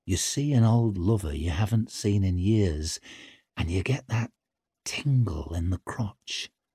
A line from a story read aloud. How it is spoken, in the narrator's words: purred